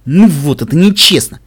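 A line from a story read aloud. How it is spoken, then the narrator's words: Snorting. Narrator (Russian): фыркнул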